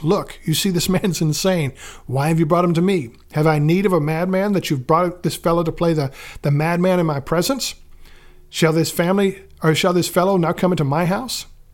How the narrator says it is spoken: he snaps

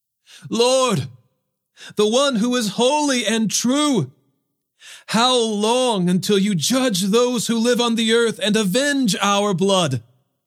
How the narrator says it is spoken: They cried out with a loud voice

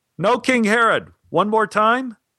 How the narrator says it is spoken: I yelled up to Stein

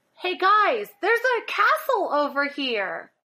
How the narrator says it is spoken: I yell at the party

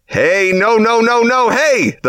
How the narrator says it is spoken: the firefighter helpfully shouts

